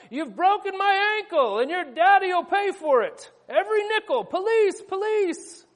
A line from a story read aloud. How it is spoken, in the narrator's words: the old woman on the pavement shout